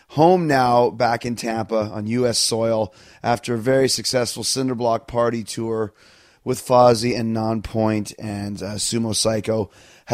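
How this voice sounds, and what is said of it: Raspy, slightly sick voice. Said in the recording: “You can hear it in my voice, a little bit raspy, a little bit sick.”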